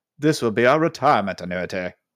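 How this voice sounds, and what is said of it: Imitated British accent. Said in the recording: “the accent was off ... That's closer ... He was just British.”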